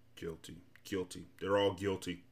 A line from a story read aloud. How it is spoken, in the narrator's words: Officer Schriff ... suspiciously muttering